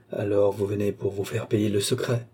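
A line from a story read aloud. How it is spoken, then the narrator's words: Menacing tone. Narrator (French): dit Balzamo d'un ton menaçant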